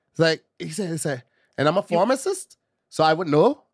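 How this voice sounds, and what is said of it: Put-on Irish accent. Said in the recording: “I sound more like a Jamaican slash Irish person ... that is an Irish accent.”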